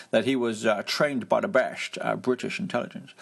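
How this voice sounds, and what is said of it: Imitates another person's voice, poorly. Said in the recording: “That was a terrible accident. Terrible, terrible impression.”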